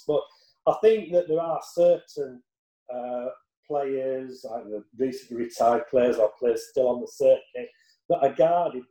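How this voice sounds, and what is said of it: Broad Yorkshire accent. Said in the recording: “I've got quite a broad Yorkshire accent”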